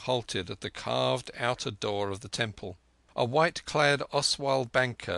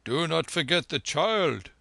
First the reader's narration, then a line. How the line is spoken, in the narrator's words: cried the importunate Jat over his shoulder